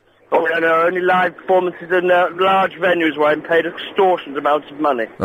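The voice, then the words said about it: Posh English accent. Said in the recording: “posh Englishman ... I put on the accent now and then”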